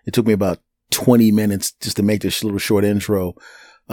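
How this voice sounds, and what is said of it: Failing, strained voice. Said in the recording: “losing my voice, having a little bit of a vocal problem”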